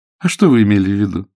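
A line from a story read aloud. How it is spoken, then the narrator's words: Mocking question. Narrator (Russian): насмешливо спросила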